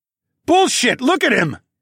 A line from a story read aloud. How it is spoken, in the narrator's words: shouted